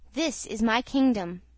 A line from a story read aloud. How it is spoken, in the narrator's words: he answered